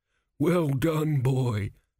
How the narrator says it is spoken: groaned a crumbling mummy

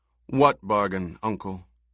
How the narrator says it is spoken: his voice remained calm and reasonable, betraying none of the elation that filled him

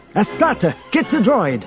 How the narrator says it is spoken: Isolde shouted

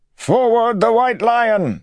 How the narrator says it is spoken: voices yelled

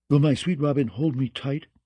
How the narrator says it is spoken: she asked

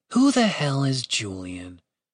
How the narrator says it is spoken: Catherine murmured to herself

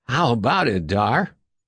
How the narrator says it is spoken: Huskily, Stuart Hadley said

